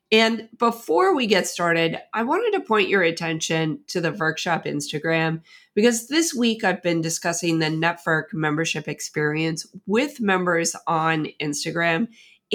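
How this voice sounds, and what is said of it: Slightly raspy voice. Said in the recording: “I have a little bit of a cold. So if you hear that in my voice, it's a little bit more raspy than normal”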